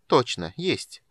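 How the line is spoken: Cold reply. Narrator (Russian): холодно отозвалась Ильхана

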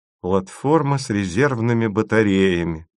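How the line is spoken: Mutter. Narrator (Russian): пробормотала Маша

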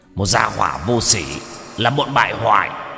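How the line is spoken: Angry roar. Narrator (Vietnamese): Lưu Tướng Quân tự nhiên không nhìn ra ba người đang diễn xuất, tức giận gầm lên một tiếng

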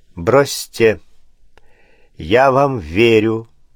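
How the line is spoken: Calm nobleman. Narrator (Russian): спокойно сказал граф

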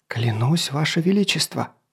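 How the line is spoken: Whispering. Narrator (Russian): шептал королю, окаменевшему в своем кресле, господин Гавен

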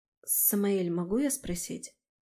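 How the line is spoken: Quiet. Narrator (Russian): Тихо начала я

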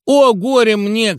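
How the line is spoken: Mocking wail. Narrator (Russian): кривляясь, завопил Димочка

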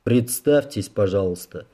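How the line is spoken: Dry reminder. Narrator (Russian): сухо напомнил Рэй

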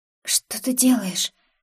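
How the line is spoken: Faint, breathless whisper. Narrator (Russian): прошептала я, чувствуя, как синеют губы

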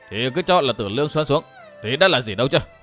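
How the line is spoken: Loud laughing question. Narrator (Vietnamese): Vô Tư Minh cười to hỏi

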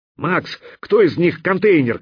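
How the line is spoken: Shouting. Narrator (Russian): крикнул мировой

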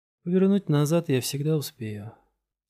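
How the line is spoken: Quiet, to herself. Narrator (Russian): тихо сказала себе Габриэла

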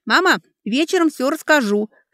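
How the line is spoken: Shouted while running. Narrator (Russian): крикнула Алекса на бегу

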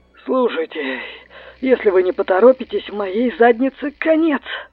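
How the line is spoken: Hoarse voice. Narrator (Russian): Голос звучал хрипло

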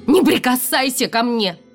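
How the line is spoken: Shouted out. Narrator (Russian): выкрикнула я

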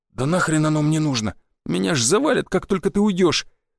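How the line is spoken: Shaky, blurted. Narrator (Russian): дрогнувшим голосом выпалил Федька

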